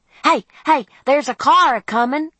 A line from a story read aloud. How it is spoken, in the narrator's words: shouted Freddy